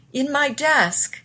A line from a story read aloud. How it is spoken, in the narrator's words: Elizabeth shouted